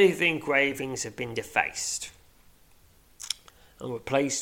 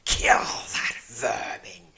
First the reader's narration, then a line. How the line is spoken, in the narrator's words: hisses the Tazzar leader